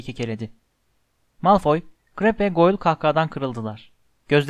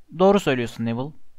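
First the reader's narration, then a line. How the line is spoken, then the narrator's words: Plain. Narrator (Turkish): dedi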